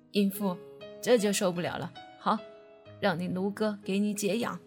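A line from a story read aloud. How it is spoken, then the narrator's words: Lewd laughing. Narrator (Chinese): 陆长青淫笑着说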